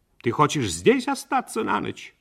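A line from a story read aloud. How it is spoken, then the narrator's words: Sharp question. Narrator (Russian): Мать резко спросила у него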